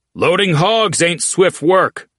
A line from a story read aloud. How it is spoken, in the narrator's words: Oates called out so all could hear